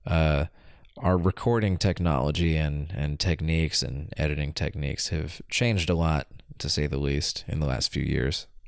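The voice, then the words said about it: Sick-sounding, stuffy voice. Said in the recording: “I'm getting over a pretty bad cold, so, uh, pardon my voice”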